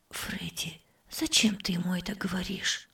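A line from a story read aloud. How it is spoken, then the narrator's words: Whispered. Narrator (Russian): прошептала тетя Зара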